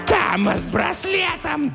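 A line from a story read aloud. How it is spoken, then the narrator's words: Shrill distant voice. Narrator (Russian): донесся визгливый голос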